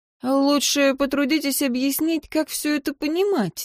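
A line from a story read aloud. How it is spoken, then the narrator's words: Hesitant. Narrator (Russian): неуверенно начала я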